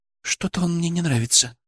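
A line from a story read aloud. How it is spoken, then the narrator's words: Whisper. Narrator (Russian): шепнула Алена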